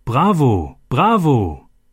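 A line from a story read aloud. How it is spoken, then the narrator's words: Called out amid loud clapping. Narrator (German): ertönte plötzlich lautes Klatschen und jemand rief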